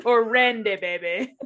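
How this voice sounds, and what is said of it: Poor Austin Powers accent impression. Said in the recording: “As Austin Powers would say, in a very poor accent.”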